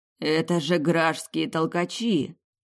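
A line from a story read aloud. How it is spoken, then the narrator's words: Shocked breathless exhale. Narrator (Russian): потрясенно выдохнул Тирхан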